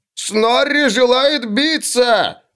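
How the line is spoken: Yelling. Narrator (Russian): орал Снорри

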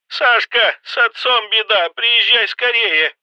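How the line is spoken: Shouting, voice breaking. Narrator (Russian): Срывающимся голосом прокричала она

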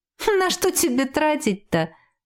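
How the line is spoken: Laughing. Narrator (Russian): рассмеялась Ева

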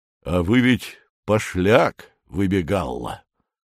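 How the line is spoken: Unexpectedly calm announcement. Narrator (Russian): неожиданно спокойным голосом объявляет Федор Семенович

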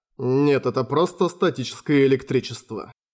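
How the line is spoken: Cold reply. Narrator (Russian): холодно ответил Юсихико

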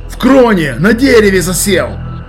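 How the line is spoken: Shouted out. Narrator (Russian): выкрикнул

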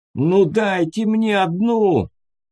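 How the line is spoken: Prisoner shouting. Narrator (Russian): закричал пленный

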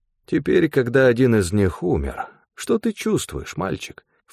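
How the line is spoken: Insinuating question. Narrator (Russian): вкрадчиво поинтересовался Стефан

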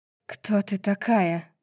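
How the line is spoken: Hoarse rasp. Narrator (Russian): прохрипела Неста

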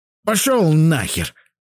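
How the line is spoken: Barked retort. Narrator (Russian): рявкнул я в ответ

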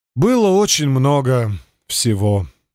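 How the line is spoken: Sighing. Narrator (Russian): вздохнул

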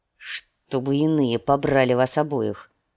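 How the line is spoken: Gloomy mutter. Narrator (Russian): мрачно буркнул Нед

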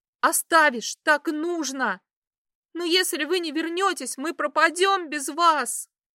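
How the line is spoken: Girl screaming. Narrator (Russian): Закричала девушка

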